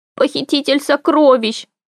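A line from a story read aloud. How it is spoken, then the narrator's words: Sobbing. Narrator (Russian): всхлипнул он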